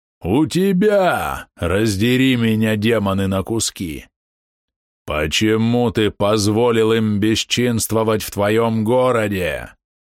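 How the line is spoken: Near growl. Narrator (Russian): он почти рычал

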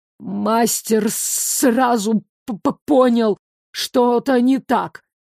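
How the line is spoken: Stuttering from around corner, man. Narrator (Russian): Донеслось заикающееся из-за угла, мужчина

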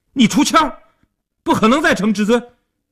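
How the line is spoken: Loud clamoring. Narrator (Chinese): 一边嚷嚷着

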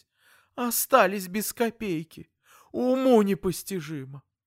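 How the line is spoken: Whimpering again. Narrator (Russian): Я захныкал по новой

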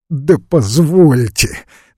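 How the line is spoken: Starts, breaks into laughter. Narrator (Russian): начал было Весленев и опять расхохотался

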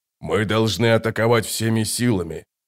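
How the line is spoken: Hoarse. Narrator (Russian): хрипло сказал барон

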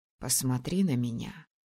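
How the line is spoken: Quiet plea. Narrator (Russian): тихо попросил принц

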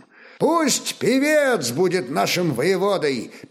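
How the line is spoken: Exclaimed in Slavic tongue. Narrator (Russian): Первым по-славянски воскликнул новгородец

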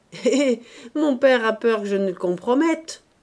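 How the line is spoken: Cheerful. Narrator (French): reprit gaiement

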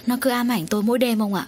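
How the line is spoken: Weary sighing old woman. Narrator (Vietnamese): Thở dài ngao ngán, bà

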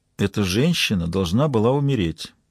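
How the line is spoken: Said quietly. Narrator (Russian): тихо произнесла Маура

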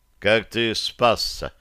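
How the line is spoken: Dry question. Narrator (Russian): сухо спросил я

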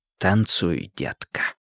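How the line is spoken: Whisper. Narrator (Russian): шепнул Линч

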